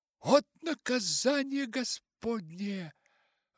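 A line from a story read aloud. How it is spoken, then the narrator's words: Exclaiming. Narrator (Russian): воскликнула миссис Беннет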